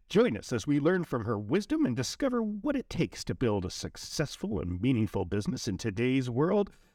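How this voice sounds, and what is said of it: Polished podcast host voice. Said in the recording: “your voice is amazing. ... I turn into that podcast voice”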